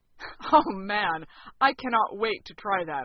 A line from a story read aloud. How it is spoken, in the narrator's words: I said, laughing